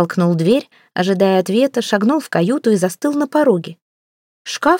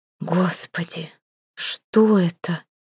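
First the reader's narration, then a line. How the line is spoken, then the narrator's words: Breathless exhale. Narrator (Russian): выдохнула Ангелина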